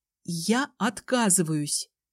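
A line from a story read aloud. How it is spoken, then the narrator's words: Quiet repetition. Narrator (Russian): Тихо повторила я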